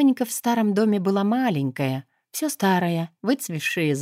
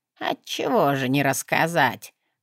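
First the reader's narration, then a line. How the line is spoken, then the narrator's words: Creaky voice. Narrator (Russian): проскрипела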